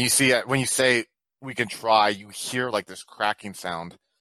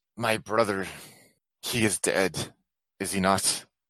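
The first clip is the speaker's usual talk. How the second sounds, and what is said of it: Slight Polish accent character voice. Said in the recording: “you guys hear a voice come down, a slight with a Polish accent.”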